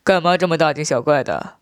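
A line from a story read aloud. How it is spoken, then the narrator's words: Laughing. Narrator (Chinese): 我笑道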